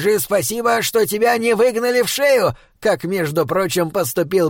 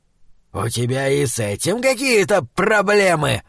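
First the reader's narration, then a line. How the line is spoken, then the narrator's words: Menacing demonic hiss. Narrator (Russian): угрожающе прошипел демон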